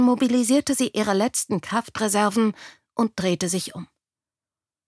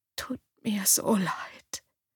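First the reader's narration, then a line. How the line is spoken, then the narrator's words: Barely audible breath. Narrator (German): hauchte Claire kaum hörbar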